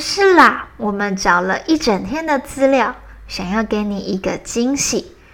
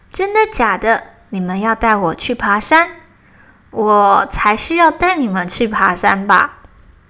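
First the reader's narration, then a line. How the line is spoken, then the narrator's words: Plain. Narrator (Chinese): 小熊说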